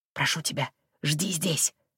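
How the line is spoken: Whispered. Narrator (Russian): прошептал Джем

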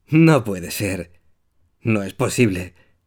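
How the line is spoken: Terrified whisper. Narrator (Spanish): susurra aterrado

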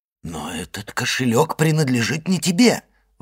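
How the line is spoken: Exclamation. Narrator (Russian): воскликнул Моррель

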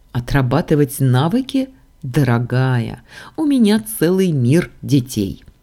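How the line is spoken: Deity laughing loudly. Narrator (Russian): расхохоталось божество

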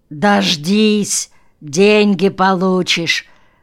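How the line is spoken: Hoarse rasp. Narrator (Russian): прохрипел один

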